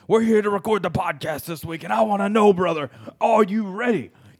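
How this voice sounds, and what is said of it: Imitates a wrestler's voice. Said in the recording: “I can't do his voice ... Some people do a really good Macho Man impression.”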